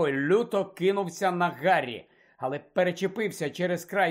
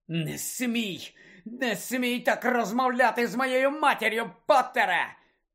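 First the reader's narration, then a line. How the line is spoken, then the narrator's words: Growled. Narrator (Ukrainian): прогарчав Малфой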